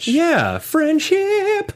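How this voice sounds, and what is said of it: Sings the word in falsetto. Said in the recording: “I sing in a falsetto the word friendship”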